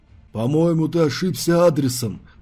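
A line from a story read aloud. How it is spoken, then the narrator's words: Deep female voice. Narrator (Russian): пробасила дама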